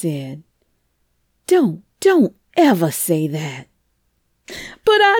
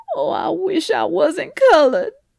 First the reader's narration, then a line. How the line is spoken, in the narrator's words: the bottled up tears spilled over, and she cried plaintively